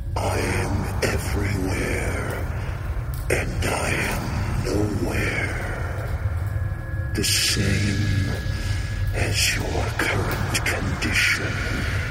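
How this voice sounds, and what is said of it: Raspy voice. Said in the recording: “raspy voice”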